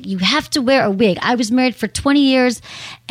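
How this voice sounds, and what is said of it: Imitated accent of another woman. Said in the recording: “she had some kind of accent that I'm doing now”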